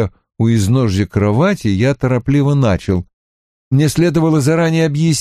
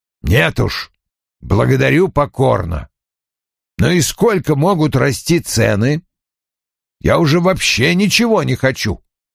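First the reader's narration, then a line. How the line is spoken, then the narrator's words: Grumbling. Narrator (Russian): Вульф проворчал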